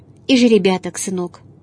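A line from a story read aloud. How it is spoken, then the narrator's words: Sighing. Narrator (Russian): вздохнул Кирилл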